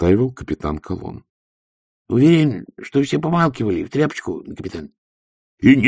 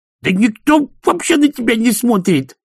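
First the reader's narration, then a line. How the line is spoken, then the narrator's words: Yelling. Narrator (Russian): завопил Шноби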